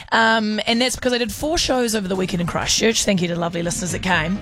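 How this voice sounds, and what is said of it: Hoarse, strained voice. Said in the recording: “you may hear that my voice is a bit busted”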